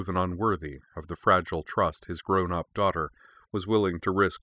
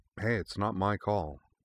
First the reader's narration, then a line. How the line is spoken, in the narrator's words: said Korra gently